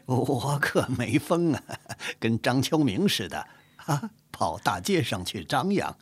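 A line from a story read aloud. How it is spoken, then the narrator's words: Laughing. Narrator (Chinese): 高恒回过神来，笑着说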